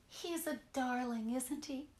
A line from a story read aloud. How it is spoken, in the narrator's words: Joanna said dreamily